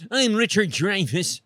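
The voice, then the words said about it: Imitates another person's voice. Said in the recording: “That's my impression of Richard Dreyfuss.”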